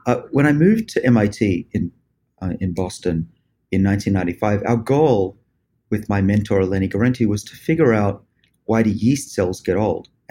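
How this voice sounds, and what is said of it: Australian accent. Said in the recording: “I was born in Australia. You can probably tell from my accent.”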